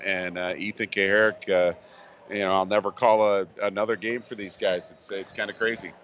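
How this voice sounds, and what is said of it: Emotional, choked-up voice. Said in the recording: “I'm getting a little emotional just talking about it right now”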